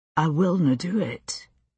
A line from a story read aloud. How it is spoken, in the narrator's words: he whispered